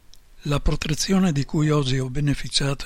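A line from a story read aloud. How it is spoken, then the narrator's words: Exclaimed. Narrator (Italian): esclama il Führer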